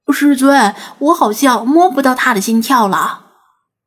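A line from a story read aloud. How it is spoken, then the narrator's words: Sudden cry. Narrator (Chinese): 王乾突然叫道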